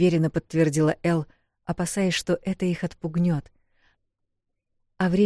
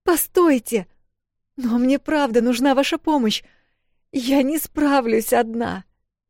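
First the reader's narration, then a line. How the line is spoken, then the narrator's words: Strained, nearly sobbing. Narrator (Russian): Почти рыдая, выдавила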